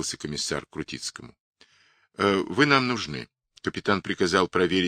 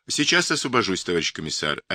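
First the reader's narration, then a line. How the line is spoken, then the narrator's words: Plain. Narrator (Russian): ответил Крутицкий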